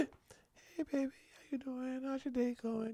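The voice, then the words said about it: Soft, sweet little voice. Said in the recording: “put on your little voice”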